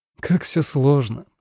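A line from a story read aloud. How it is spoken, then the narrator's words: Wry snort. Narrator (Russian): хмыкнула Надя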